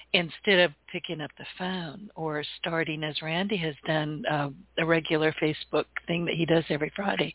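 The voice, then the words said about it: Hoarse, failing voice. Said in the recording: “I'm losing my voice, sorry. ... We're waiting for ... to clear her voice and come back.”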